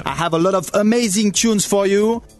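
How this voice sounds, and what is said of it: Put-on French accent. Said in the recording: “your French accent, if you will ... Am I more real French than his?”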